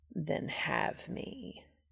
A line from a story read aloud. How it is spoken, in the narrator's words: Castiel said, his voice dropping suggestively